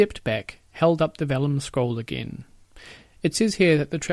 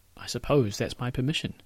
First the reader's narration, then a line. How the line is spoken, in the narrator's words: Peter said